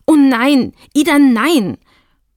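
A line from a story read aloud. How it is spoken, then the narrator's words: Reproachful call. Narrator (German): Mit vorwurfsvoller Stimme rief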